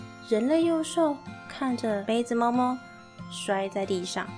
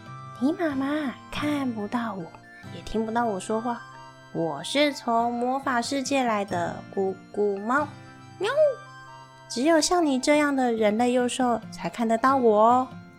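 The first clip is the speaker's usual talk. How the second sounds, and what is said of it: Quiet, hushed voice. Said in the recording (Chinese): “小声的跟他说”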